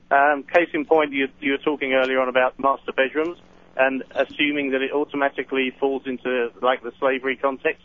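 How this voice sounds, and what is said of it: English accent. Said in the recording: “I come from England, you can probably tell from the accent”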